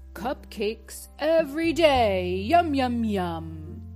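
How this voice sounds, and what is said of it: Silly puppet character voice. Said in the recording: “Then she does her Gorf voice.”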